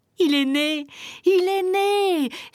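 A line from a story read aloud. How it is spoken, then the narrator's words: Exclaimed, wild with joy. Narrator (French): s'écria Otek fou de joie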